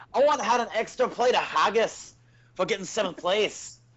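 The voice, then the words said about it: Bad put-on Scottish accent. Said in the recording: “I'm pretty sure it's the worst Scottish accent ever.”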